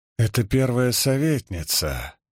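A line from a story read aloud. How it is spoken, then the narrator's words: Grumbled. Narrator (Russian): пробурчала Харине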